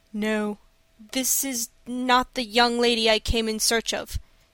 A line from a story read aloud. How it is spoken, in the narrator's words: he replied, in a strained voice